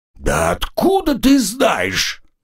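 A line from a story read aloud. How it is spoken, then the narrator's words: Irritated exclamation. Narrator (Russian): Не сдерживая раздражения, воскликнул мессир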